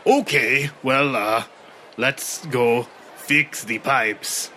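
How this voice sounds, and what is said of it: Gruff dwarf character voice. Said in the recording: “in my best dwarf voice,”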